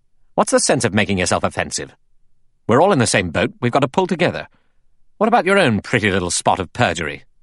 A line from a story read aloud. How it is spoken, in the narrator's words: Philip Lombard said quickly and angrily to Blore